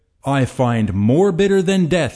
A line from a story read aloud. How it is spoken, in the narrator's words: he cried